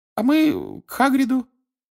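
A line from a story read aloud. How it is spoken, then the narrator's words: Timid babble. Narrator (Russian): пролепетала Гермиона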